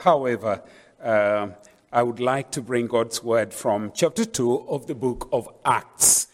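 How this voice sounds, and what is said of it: Noticeable accent. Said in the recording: “if my accent throws you a little, asunder”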